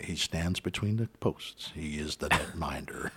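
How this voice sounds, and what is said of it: Dramatic movie-trailer voiceover voice. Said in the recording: “it's like a trailer for a film ... That is possibly the worst. ... you're not going to get any voiceover work on it.”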